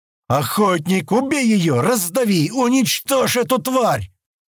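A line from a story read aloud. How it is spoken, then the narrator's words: Shouted. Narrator (Russian): закричал Стэн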